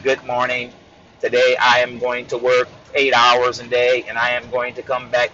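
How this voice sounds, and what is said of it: Robotic monotone voice. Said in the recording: “talking like a robot.”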